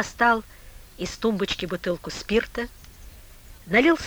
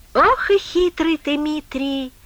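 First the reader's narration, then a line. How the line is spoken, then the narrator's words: Drunken laugh. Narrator (Russian): Пьяно засмеялся Коля База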